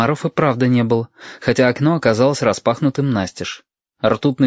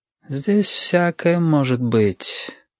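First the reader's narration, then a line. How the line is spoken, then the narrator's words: Sighing. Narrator (Russian): вздохнул Юрик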